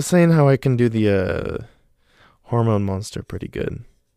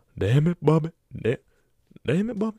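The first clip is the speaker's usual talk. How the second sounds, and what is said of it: Cartoon character impression, poorly done. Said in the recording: “Do an impression. ... King of the Hill. ... oh, Peggy. ... Man, those both fucking sucked.”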